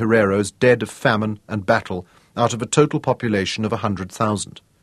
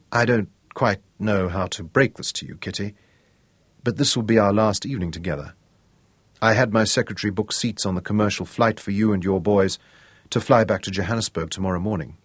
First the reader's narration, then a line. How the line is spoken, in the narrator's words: under cover of the band told her quietly